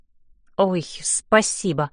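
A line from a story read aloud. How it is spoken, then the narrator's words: Muttering. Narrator (Russian): бормочу я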